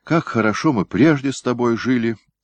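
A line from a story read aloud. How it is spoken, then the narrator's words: Sad sigh. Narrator (Russian): грустно вздохнула Ахима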